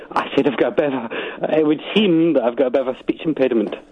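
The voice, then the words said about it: Slight Scottish accent, older-sounding voice. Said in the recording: “you do have a slight Scottish accent ... youngish men with old men's voices”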